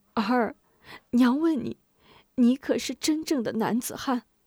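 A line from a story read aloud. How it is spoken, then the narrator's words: Sobbing question. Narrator (Chinese): 吴夫人止住哭声，抽泣着问吴中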